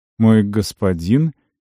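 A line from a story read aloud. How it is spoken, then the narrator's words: Uncertain young woman's question. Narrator (Russian): неуверенно уточнила девушка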